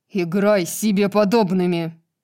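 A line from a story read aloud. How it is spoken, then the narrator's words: Barked. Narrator (Russian): рявкнул Хант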